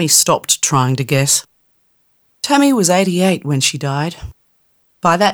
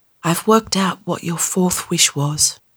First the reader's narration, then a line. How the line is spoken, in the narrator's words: whispered to him